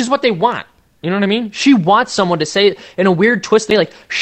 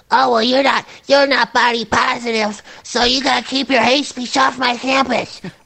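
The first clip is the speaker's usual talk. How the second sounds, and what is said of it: Imitates another person's voice. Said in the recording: “That was a good impression,”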